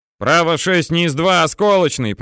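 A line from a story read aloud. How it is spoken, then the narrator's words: Shouted. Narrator (Russian): прокричал Аким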